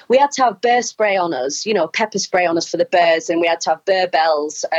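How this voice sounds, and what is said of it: Wigan northern English accent. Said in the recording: “my Wigan accent says bear quite funny”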